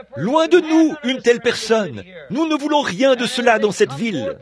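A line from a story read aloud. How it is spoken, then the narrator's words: Shouting. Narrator (French): Les autres criaient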